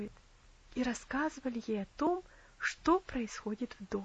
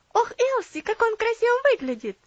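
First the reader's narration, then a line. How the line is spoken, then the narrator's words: Exclaimed. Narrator (Russian): воскликнула Энна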